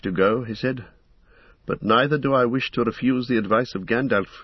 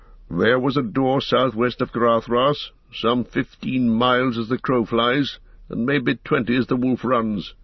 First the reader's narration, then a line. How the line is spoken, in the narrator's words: answered Gandalf grimly